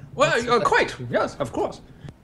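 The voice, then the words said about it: John Cleese-style voice. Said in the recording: “now your voice is that? ... You sound exactly like an NPC from another game ... John Cleese is my spirit animal ... channel him ... that accent”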